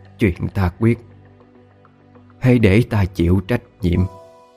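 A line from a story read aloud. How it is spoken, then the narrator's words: Smiling whisper to herself. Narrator (Vietnamese): bà tự mỉm cười thì thầm nói với chính mình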